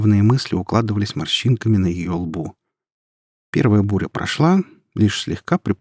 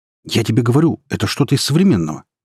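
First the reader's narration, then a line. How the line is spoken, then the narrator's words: Excited rapid chatter. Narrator (Russian): тараторил Май, взбудораженный фортепианной композицией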